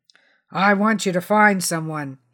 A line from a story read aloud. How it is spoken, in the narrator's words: growled